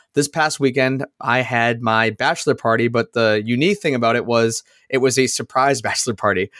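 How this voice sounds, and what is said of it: Slightly raspy voice. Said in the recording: “you can tell my voice is a little bit raspy.”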